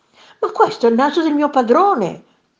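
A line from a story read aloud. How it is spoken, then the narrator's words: Horrified exclamation. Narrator (Italian): esclamò inorridita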